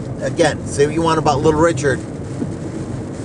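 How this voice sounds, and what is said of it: Usual voice. Nothing is said of it.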